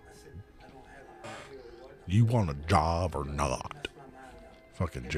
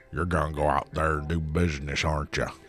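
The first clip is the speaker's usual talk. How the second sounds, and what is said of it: Imitates another person's voice. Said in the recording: “That's good, Jerry Briscoe, actually.”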